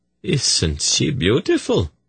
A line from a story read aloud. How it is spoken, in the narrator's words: said, gently